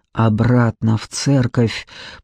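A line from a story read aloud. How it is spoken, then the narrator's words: Hoarse rasp. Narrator (Russian): прохрипел Джекоби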